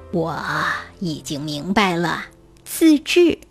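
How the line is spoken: Smiling king. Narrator (Chinese): 国王微笑着说

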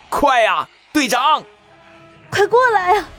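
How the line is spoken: Anxious group shouting. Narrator (Chinese): 急得对面的众人纷纷大喊道

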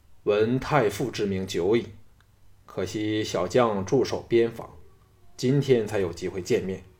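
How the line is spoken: Calm, cool. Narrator (Chinese): 淡淡说

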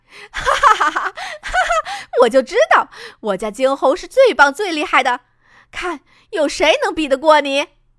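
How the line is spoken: Loud laughter. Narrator (Chinese): 他大笑出声来

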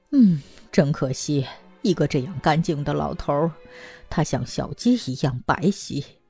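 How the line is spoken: Muttering. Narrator (Chinese): 看门女人……喃喃地说

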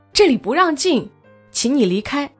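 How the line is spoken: Shouting. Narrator (Chinese): 彭超喊道

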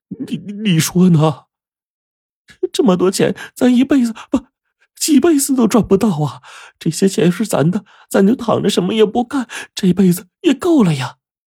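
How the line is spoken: Trembling question. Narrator (Chinese): 刘东升这声音呢颤抖的反问

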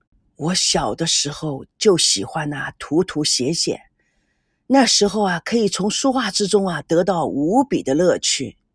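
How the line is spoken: Wistful sigh. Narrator (Chinese): 念祖感叹地说

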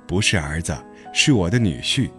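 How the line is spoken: Laughing. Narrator (Chinese): 牛牛母亲笑着说

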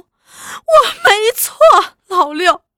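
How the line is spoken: Crying. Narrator (Chinese): 预算只是哭

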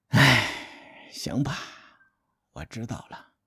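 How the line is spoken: Long sigh. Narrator (Chinese): 晋定公是一个被架空的国君，他长叹一口气

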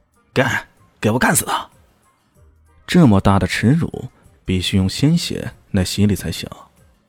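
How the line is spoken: Through gritted teeth. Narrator (Chinese): 马明阳咬牙切齿的说道

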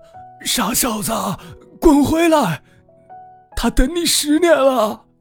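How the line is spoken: Old man's shout. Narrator (Chinese): 老乞丐 朝着门外大喊道

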